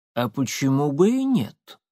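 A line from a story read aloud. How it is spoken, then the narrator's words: Calm question. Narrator (Russian): спокойно спросил Коинов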